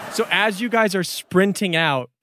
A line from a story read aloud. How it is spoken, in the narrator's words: Chip shouted those orders